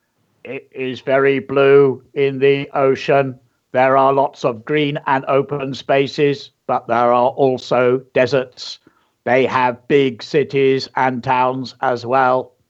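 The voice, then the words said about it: Put-on alien character voice. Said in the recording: “I tried to do an alien voice, but it didn't come out very well... this is my alien voice”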